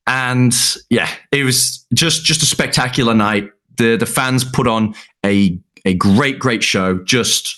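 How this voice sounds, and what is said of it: Slight Liverpool accent. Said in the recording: “your accent might have gotten a little bit Liverpool-ish”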